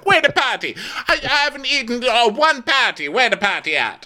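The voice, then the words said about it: Wonky put-on Jamaican accent. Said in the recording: “my Jamaican accent so is all wonky ... we have terrible ... I'm not even gonna try for a proper one”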